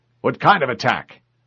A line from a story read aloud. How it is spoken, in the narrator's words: the ODST officer demanded curtly